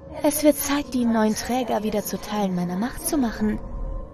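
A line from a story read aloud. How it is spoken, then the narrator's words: Quiet. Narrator (German): sagt es leise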